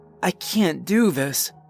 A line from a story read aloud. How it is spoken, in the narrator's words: Sue moaned